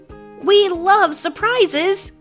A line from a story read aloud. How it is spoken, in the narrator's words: Finn shouted